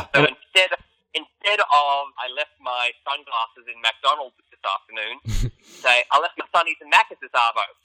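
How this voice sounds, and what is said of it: Native Australian accent. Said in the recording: “as a native Australian”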